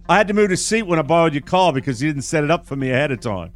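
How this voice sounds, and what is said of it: Put-on British accent. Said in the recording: “this is the British guy... I'll do it with a British accent”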